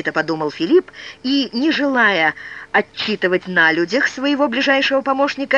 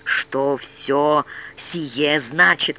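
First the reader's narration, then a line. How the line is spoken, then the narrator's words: Hissed. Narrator (Russian): прошипел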